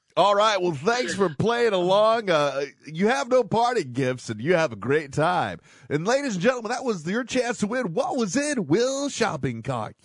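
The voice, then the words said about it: Game show host voice. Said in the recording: “radio voice ... That was Mr. Game Show Host”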